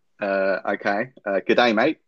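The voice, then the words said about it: Australian accent. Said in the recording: “can you say g'day, mate, in an Australian accent? ... That's good.”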